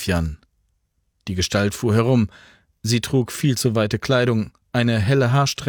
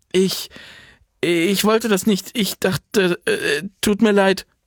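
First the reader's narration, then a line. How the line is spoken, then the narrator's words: Stammering. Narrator (German): stammelte sie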